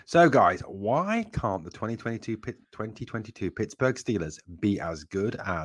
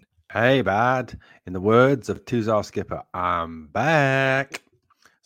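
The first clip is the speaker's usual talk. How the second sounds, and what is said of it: Bad put-on American accent. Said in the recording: “Sorry for the bad American accent”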